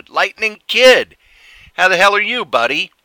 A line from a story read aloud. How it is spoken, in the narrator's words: one of the guys who was up and coming when I left the business shouted